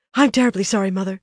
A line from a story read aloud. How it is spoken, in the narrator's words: said breathlessly